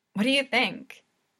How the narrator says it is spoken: he asks Kageyama eagerly

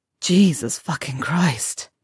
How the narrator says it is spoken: Draco sighs

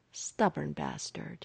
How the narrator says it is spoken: Hawkeye sighed

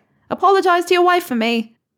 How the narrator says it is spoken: Donna yelled from the kitchen

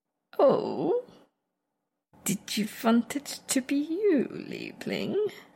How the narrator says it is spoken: Viago practically purrs

